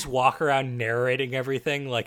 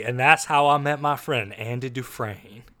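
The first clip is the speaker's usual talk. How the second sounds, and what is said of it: Bad Morgan Freeman impression. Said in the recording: “like I was Morgan Freeman in The Shawshank Redemption ... Doing a bad Morgan Freeman impression”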